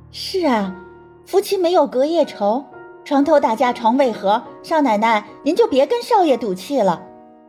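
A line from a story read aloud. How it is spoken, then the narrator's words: Wry agreeing. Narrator (Chinese): 苦笑着 青梅附和道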